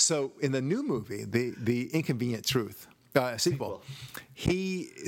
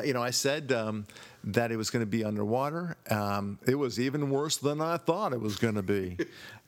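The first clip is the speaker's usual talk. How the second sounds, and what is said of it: Imitates another person's voice. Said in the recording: “my imitation ... My imitation, I thought it was pretty darn on the spot ... You nailed it.”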